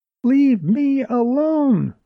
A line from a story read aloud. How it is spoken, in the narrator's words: wailed Jerry